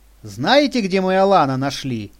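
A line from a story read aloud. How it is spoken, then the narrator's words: Cheerful. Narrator (Russian): весело проговорила Лиля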